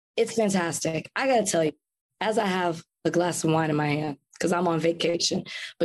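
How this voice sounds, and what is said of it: Voice sounding sick. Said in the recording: “My voice is still like this. Remember, I was sick ... It only got worse. Flying made it worse.”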